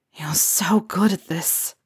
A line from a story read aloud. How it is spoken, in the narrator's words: he whispered